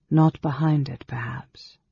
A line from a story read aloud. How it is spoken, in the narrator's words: Alhanna said, sighing